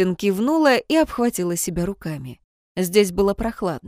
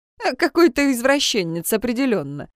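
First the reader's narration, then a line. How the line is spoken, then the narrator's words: Snorting. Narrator (Russian): хмыкнул Людвиг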